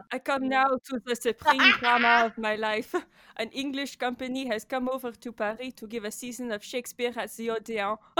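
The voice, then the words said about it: Put-on French accent. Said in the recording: “Should I do a French accent? Is that more accurate? ... That was not bad, I don't think.”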